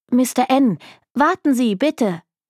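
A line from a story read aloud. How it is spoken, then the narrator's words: Calling out. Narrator (German): rief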